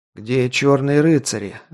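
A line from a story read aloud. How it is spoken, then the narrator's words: Strained. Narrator (Russian): выдавил я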